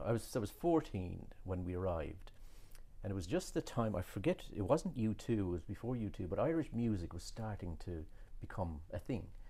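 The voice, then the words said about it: Irish accent. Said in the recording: “You still have your Irish accent.”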